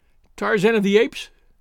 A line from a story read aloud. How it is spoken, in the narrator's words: she cried